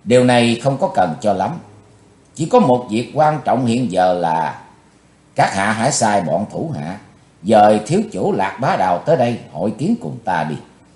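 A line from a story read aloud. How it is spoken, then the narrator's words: Cold. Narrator (Vietnamese): Chí Tôn giọng lạnh lùng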